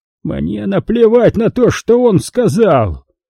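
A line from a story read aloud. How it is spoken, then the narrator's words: Impatient shout. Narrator (Russian): закричал Тони, теряя терпение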